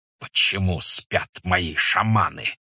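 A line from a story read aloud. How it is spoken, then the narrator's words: Hiss. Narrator (Russian): прошипел он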